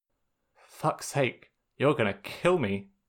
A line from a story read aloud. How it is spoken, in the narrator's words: Sokka muttered